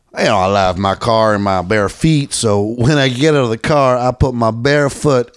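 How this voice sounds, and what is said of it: Imitates another person's voice. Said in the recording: “doing my Ron White impression.”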